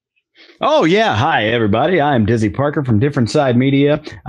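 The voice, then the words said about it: Polished announcer-style radio voice. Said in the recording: “I'll take off the radio voice.”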